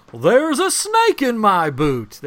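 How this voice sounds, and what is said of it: Imitates another person's voice. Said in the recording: “I can't do a Tom Hanks impression. ... Oh, I got one. I can do it.”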